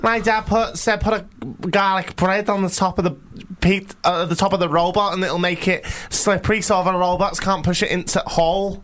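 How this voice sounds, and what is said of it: Attempted Scouse accent drifting Yorkshire. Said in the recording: “I'm trying to do a Scouse accent, can't do it. ... That turned to Yorkshire at the end.”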